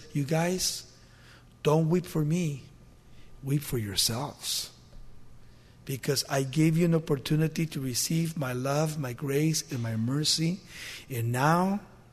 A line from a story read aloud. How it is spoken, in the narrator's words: says